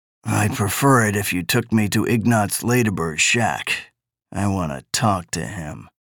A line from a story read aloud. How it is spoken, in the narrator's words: Baines said grimly